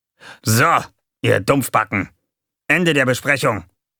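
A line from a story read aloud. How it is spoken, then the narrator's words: Sudden barking shout. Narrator (German): bellte Gonko plötzlich los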